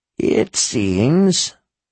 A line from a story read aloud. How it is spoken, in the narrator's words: she said in her rasp